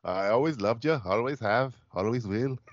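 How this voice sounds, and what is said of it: Attempted Scottish accent. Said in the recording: “Do a Scottish accent for Franco Nero ... It's better than mine ... It's probably Irish.”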